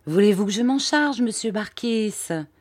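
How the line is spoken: Timid question. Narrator (French): demandai-je d'un ton timide

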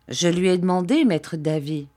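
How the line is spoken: Plain reply. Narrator (French): répondit-il

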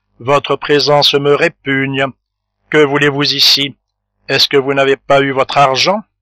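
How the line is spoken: Curt, insolent. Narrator (French): dit la duchesse d'une voix brève et insolente

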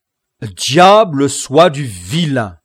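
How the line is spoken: Exclaimed. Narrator (French): s'écria Don Quichotte

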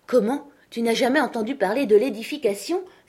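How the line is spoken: Exclaimed. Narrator (French): s'exclama-t-il

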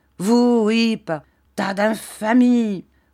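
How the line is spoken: Exclaiming. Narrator (French): s'écria M

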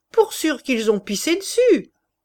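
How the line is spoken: Sneering snicker. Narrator (French): ajouta Chouteau en ricanant

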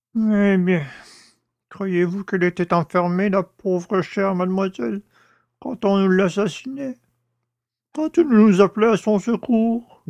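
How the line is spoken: Moaned. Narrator (French): gémit le père Jacques

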